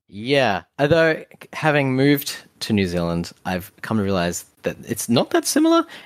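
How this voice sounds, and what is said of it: Australian or New Zealand accent. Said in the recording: “Australia, New Zealand ... you guys have a very similar accent”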